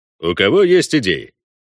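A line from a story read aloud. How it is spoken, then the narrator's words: Cheerful inquiry. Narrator (Russian): бодро осведомился Вольва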